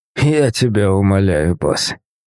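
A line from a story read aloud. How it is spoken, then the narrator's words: Mocking groan, leader. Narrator (Russian): насмешливо простонал глава фрименов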